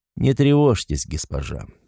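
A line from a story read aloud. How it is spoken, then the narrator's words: Calm. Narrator (Russian): спокойно продолжил Горф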